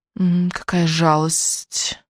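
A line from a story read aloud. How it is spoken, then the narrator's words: Sympathetic hiss. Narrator (Russian): прошипела Сара с симпатией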